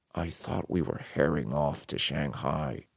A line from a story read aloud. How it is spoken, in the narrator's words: Magnus said quietly